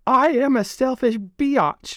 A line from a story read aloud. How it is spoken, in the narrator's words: she shouted at the top of her lungs